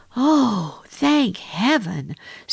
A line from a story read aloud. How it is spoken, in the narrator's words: sighed the duckling